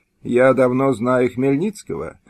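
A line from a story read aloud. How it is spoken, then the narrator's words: Gloomy. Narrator (Russian): мрачно откликнулся комиссар Шемберг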